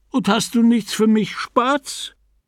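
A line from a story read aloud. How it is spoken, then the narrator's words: Husband calling out. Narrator (German): Ihr Mann rief ihr zu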